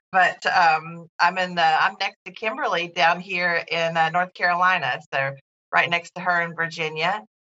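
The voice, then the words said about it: Non-Canadian regional accent. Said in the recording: “y'all could probably already tell that I don't live in Toronto by my accent”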